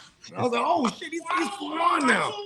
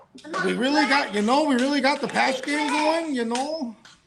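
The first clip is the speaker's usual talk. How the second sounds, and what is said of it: Put-on Minnesota accent. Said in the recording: “He has the Minnesota accent now.”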